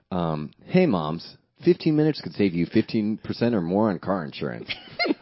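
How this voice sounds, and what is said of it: Cool Geico ad announcer voice. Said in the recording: “I don't know if the Geico people are very sensuous. They're like cool.”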